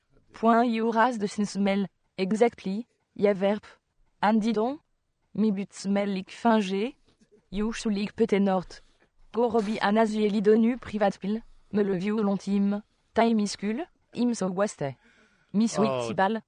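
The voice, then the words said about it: Put-on French accent. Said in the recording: “the same thing in a French accent”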